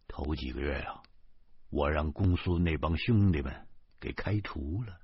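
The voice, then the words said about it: Quiet, hushed voice. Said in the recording (Chinese): “小声的说”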